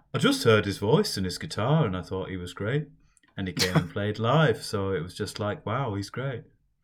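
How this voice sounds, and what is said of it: Imitates another person's voice. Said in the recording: “This is my best Paul McCartney impression.”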